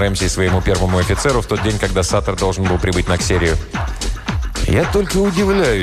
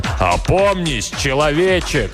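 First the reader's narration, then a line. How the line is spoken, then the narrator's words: Shout. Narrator (Russian): крикнул ему Рэмси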